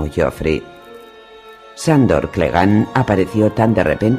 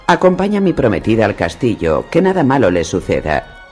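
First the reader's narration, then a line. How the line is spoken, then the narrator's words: Prince, brusque order. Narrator (Spanish): le ordenó el príncipe con tono brusco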